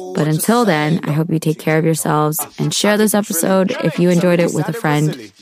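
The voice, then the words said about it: Tired, low-energy voice. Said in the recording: “I'm really tired right now. I'm sure you can hear it in my voice”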